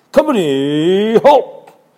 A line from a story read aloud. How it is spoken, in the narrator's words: Ant, in a loud voice